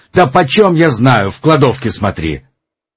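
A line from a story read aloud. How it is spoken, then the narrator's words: Loud angry male voice. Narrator (Russian): мужской голос, тоже сердитый, громко ответил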